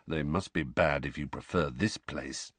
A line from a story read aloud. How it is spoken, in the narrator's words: said Sirius gloomily